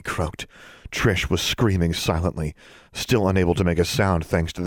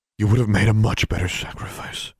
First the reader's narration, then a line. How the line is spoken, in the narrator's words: John said